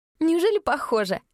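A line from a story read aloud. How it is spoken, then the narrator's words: Giggle. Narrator (Russian): хихикнула я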